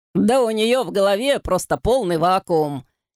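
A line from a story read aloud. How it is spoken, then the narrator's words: Laughing. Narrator (Russian): засмеялся Шмидти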